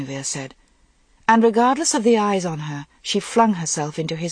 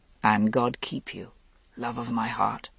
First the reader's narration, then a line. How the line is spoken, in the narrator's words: Lancelot said very softly